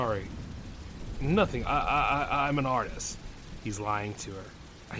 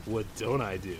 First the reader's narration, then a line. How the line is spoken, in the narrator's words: He said under his breath with a condescending laugh